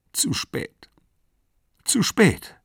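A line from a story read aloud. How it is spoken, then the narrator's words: Sobbing. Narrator (German): schluchzte sie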